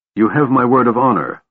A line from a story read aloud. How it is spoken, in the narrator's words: Lorana said angrily